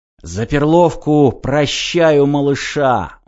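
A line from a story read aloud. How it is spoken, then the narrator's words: Breathed out, male. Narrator (Russian): выдохнул он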